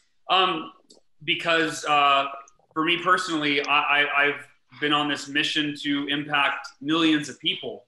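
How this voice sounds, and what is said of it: Choked up, emotional voice. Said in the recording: “getting choked up.”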